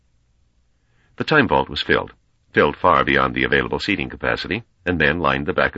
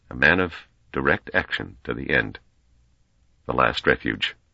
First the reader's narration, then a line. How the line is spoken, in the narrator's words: Hardin muttered